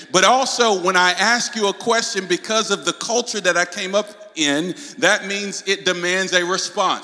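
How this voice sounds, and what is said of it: Southern American accent, drawn-out words. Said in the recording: “you might hear my southern accent ... that's my native dialect ... you might hear my words slow down and get drawn out a little bit more”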